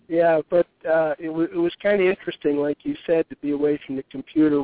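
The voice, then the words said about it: Slightly hoarse voice. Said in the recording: “I got a little hoarseness going here.”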